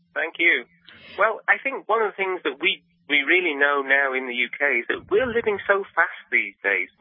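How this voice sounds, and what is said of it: British accent. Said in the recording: “Note the accent. He's British.”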